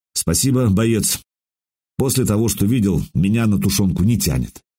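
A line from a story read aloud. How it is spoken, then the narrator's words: Dry, emotionless voice. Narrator (Russian): Сказал суховатым, безэмоциональным голосом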